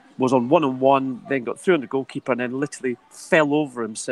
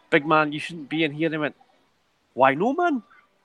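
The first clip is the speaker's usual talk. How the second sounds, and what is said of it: Bad put-on Geordie accent. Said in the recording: “sorry for the bad Geordie accent”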